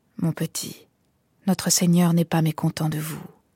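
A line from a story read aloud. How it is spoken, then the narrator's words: Low voice, odd accent. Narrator (French): fit à voix basse, avec un indéfinissable accent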